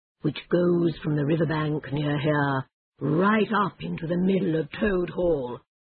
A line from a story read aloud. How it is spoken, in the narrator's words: said the Badger slowly